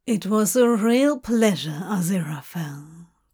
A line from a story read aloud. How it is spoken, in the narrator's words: Crowley says, the timbre of his voice sending shivers down Aziraphale's spine